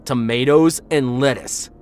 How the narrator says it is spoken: he shouted

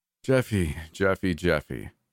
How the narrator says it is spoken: he sighed

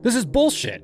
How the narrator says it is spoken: she snapped

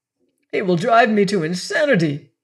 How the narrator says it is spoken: cried

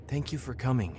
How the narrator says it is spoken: she said, her voice almost a whisper

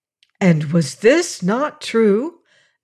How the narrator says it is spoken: asked the swallows eagerly

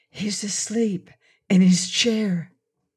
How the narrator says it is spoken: Dorothy tiptoed to the door of the study and whispered

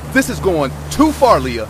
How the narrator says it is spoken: I shouted

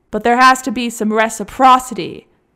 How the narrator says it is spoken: finally shouted at full volume

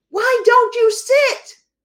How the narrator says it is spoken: a woman scream

